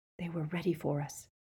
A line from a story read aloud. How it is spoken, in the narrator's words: whispered Harry